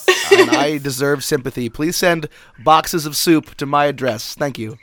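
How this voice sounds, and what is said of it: Stuffy, congested voice. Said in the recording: “you sound stuffy. ... I am stuffy. ... I have a cold”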